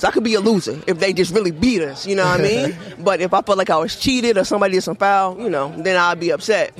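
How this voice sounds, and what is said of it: Southern American accent. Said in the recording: “y'all southern accent”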